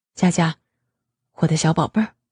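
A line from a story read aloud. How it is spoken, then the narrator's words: Soft close whisper. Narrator (Chinese): 他俯首在媳妇玉美玲珑的耳垂边低声说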